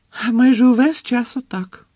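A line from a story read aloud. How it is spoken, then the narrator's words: Explained in unconvincingly cheerful voice. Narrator (Ukrainian): пояснила місіс Візлі непереконливо бадьорим голосом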